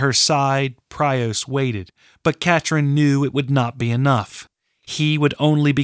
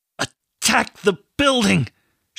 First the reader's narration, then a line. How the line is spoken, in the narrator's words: said through gritted teeth